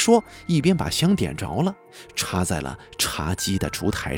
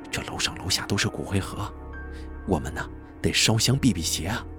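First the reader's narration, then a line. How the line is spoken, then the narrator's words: Low voice. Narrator (Chinese): 张吉利低声地说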